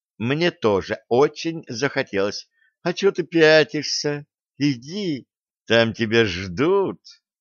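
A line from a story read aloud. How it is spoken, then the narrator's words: Tender cooing. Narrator (Russian): Ласково проворковала Стесси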